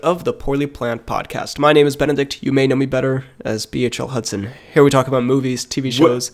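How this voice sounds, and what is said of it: Congested, sniffly sick voice. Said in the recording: “I'm a sick buddy today, in case you couldn't hear from my voice. I got a case of the old snufflers ... The deadly sniffles”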